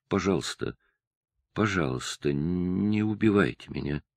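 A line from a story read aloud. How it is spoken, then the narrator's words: Girl's trembling whisper. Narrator (Russian): дрожащим голосом девочка прошептала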